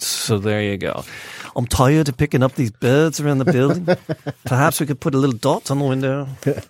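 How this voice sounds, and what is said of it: Put-on British accent. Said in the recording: “I don't understand why you're doing British accents. I think it's great.”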